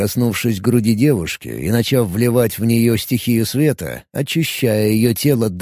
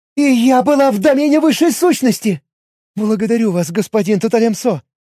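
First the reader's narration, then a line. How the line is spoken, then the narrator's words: Babbling. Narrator (Russian): пролепетала Себия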